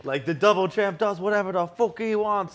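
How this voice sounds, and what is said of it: Conor McGregor accent impression, held well. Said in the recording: “I kind of smashed that accent. ... That actually sounded good. ... My accents usually quickly go Australian, but I think I held it that time.”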